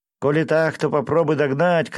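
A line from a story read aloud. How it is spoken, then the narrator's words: Shouting. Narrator (Russian): крикнул он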